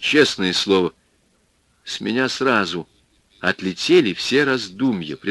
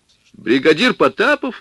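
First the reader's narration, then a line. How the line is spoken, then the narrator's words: Exclamation. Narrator (Russian): воскликнул я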